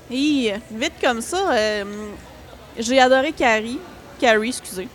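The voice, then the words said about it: English-speaker accent in French. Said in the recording (French): “Mon Dieu, j'ai un accent anglophone ... horrible”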